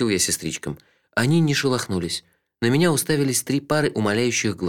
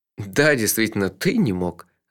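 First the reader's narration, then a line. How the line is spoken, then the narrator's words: Laughing. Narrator (Russian): рассмеялся я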